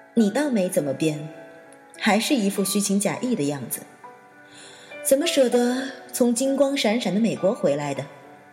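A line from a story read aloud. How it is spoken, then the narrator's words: Sarcastic. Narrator (Chinese): 小小讽刺地说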